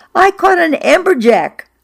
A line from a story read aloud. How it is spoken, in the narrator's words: I shouted from the boat to Fran